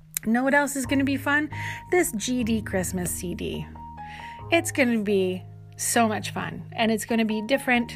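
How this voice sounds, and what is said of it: Strained, worn-out hoarse voice. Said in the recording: “my voice is a little bit shot because I've been singing all day and I don't think I drank enough water”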